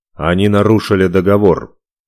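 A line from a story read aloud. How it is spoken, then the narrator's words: Sharp. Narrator (Russian): резко сказал он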